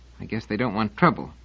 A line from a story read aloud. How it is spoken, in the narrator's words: muttered Finangelos